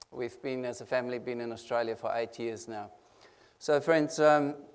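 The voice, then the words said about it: Non-native English accent. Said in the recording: “an international speaker like me. You can hear the accent ... I can't hide my accent.”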